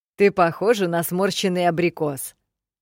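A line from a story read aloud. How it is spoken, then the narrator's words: Snorting, mocking. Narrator (Russian): хмыкнул Комдер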